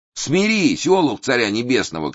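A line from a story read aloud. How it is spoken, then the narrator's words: Shouting. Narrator (Russian): кричал Никон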